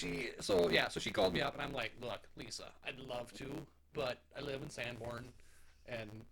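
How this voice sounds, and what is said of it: Usual voice. Nothing is said of it.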